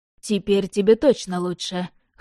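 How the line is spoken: Wry snort. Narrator (Russian): хмыкнул Яблонев

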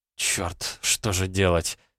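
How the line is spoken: Muttered. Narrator (Russian): пробормотала Элли

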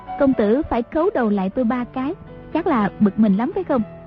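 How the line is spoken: Smiling question. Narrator (Vietnamese): Nàng ... mỉm cười hỏi Đoàn Dự

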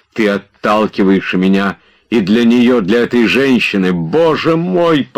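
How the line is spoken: Pained near-shout. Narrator (Russian): почти закричал он, как от внезапной боли

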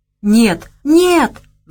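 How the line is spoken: Pleading. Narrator (Russian): взмолился тот

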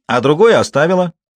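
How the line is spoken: Son shouting. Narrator (Russian): выкрикнул ее сын

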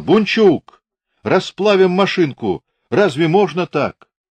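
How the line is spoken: Burly gunner's fierce shout. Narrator (Russian): Бородатый здоровый пулеметчик свирепо кричал

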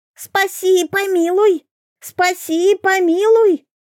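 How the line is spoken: Shrill wailing. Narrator (Russian): юродивый, засунув ее за щеку, визгливо завопил

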